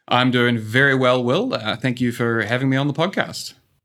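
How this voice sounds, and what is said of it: New Zealand accent. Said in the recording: “as you can tell from the accent, um, I'm a New Zealander.”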